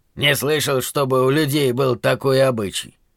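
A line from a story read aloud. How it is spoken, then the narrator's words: Calm. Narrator (Russian): напоследок спокойно сказал гном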